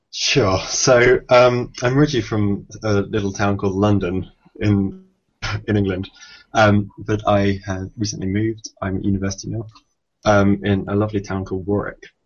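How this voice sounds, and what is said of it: Slight English accent. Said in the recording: “you have a little bit of an accent, I can tell”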